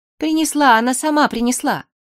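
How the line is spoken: Timid babble. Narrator (Russian): пролепетала

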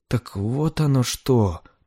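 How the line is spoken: Embarrassed mutter. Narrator (Russian): пробормотал Готфри, немного сконфуженный, что дал себя так легко провести

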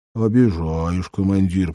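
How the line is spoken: Grumbling cat. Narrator (Russian): проворчал кот

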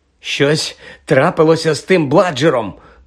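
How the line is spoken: Hoarse rasp. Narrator (Ukrainian): прохрипів Фред, щосили замахуючись биткою на м'яч

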